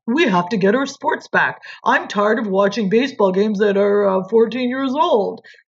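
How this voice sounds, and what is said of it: Imitates another person's voice. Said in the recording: “that's a terrible impersonation”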